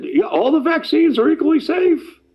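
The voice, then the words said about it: Imitates another person's voice. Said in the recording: “that's a pretty good imitation how she sounds on the air”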